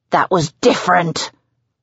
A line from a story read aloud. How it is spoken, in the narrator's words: barks